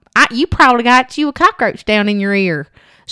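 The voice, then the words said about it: Exaggerated southern accent impression. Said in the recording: “She might have talked a little bit like that, but I think I went a little overboard. She's got a southern accent.”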